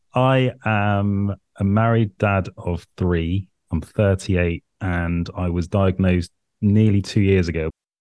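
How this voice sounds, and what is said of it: British accent. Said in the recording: “The weird accent is because I'm from the UK.”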